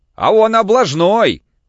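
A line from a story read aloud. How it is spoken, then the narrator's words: Shouting. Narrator (Russian): крикнул Кирюха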